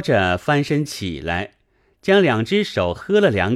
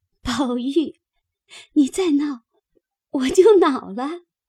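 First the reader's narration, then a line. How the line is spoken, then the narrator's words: Breathless laughter. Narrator (Chinese): 黛玉笑得喘不过气来，口里说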